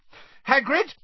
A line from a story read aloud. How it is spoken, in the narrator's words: Hermione shouted